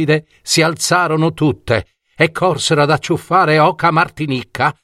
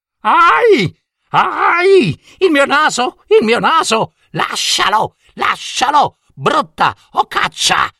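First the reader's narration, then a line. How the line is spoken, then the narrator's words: Loud shouting. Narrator (Italian): gridava forte comare la Ghitona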